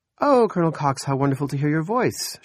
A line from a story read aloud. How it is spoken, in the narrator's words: she said brightly